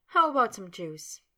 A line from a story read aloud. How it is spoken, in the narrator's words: Sabrina, still chuckling, asked